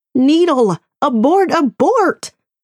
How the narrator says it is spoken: the voice inside my head, screaming

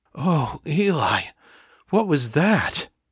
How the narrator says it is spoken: gasped

